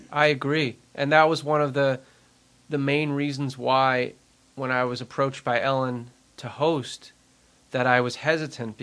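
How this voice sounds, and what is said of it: Long Island accent. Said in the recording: “my Long Island accent”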